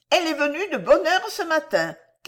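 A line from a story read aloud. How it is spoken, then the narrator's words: Servant shouting. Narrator (French): cria la servante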